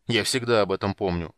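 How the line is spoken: Grumbling. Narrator (Russian): проворчал Танин

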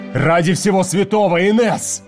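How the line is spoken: Roar. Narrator (Russian): взревел Уит

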